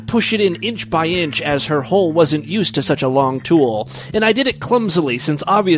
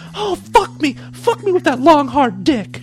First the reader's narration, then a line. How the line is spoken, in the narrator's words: she howled